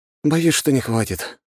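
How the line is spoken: Sighed. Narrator (Russian): вздохнул

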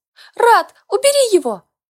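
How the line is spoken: Squeal. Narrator (Russian): визгнула Яна

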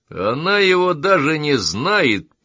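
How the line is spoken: Low booming voice. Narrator (Russian): прогудел Саймон

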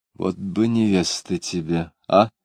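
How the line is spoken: Quiet. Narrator (Russian): она тихо сказала

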